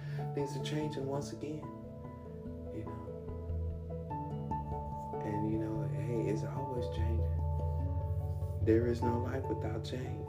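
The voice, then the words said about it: Speaking quietly, low voice. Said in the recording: “I'm talking so low, ... I'm speaking like this.”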